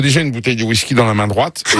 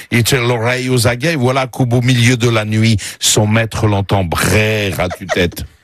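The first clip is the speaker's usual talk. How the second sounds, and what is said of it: Heavy foreign accent in broken French. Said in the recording (French): “Aerosmith, ça serait avec un accent, mais il parle très mal le français”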